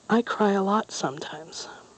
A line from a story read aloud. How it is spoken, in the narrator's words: the little girl confessed in a low voice